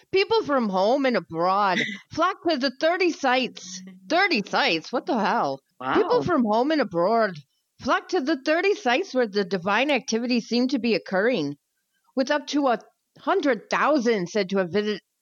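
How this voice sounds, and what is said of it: Put-on Irish accent. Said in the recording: “Can you do the rest of it in an Irish accent? ... I'll try.”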